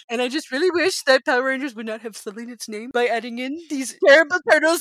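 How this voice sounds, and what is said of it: Imitates another person's voice. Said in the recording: “my impression of you is really good. It just needs a little bit of a Jersey swing, but I'm really bad at a Jersey accent... I think I sound just like you.”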